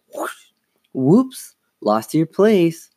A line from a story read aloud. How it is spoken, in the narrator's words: exclaimed